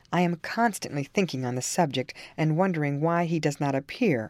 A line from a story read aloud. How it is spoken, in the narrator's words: I answered